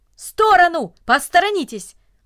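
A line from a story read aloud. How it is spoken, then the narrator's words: Brisk urgent shout. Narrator (Russian): Деловито, как будто у него было какое-то срочное дело, он закричал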